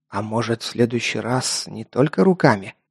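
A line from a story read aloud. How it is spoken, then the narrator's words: Mumbled. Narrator (Russian): промямлил один из парней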